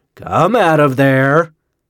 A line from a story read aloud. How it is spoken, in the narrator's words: said thickly